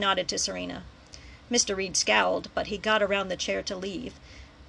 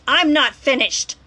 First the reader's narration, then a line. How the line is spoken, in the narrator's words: shouted